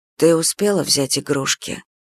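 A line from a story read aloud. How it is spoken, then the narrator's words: Whisper. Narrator (Russian): Шепот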